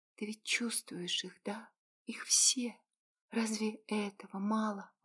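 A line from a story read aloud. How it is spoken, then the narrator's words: Slow exhaled words. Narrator (Russian): Выдохнула медленно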